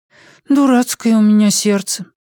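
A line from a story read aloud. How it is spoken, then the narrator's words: Sigh. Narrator (Russian): вздохнула Пеллерина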